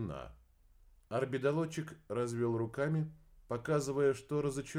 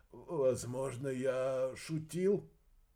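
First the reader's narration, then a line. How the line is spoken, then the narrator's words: Nervous, unsteady voice. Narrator (Russian): Эрсиец нервно нетвердым голосом произнес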